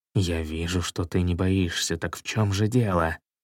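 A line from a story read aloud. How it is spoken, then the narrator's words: Whisper. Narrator (Russian): Король прошептал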